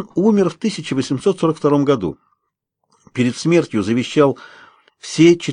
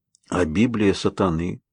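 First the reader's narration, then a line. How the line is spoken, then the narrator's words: Quiet puzzled question. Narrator (Russian): негромко спрашиваю я, все еще не улавливая связь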